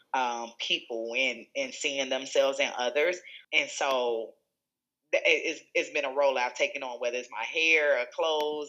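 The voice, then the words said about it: Country-sounding American accent. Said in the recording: “You have an accent. ... I sound country.”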